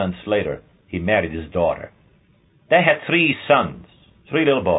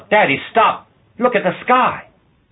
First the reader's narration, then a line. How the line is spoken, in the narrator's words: the smallest boy, a 5-year-old, he cried out